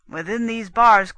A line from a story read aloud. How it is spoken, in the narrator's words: The Soldan cried to his men